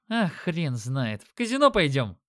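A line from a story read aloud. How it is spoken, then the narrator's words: Chuckling young man. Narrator (Russian): хохотнул парень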